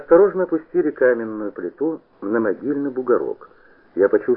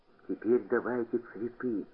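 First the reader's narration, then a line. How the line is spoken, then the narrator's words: Whisper. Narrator (Russian): прошептал куница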